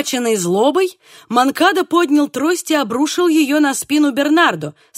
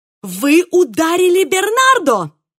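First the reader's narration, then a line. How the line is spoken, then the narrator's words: Furious exclamation. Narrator (Russian): воскликнул Диего, белый от ярости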